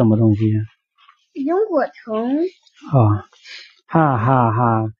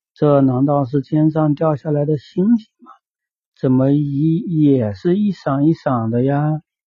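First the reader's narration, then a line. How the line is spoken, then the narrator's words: Marveling exclamation. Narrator (Chinese): 他便感叹道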